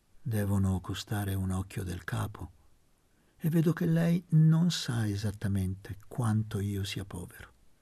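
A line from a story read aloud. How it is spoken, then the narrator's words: Slow speech. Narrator (Italian): Disse lentamente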